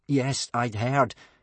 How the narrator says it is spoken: said Hiccup nervously

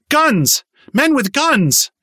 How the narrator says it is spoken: She finally managed to yell

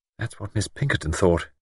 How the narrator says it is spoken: Bridget murmured

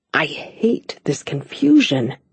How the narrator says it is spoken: he muttered

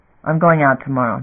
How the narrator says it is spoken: Damon said

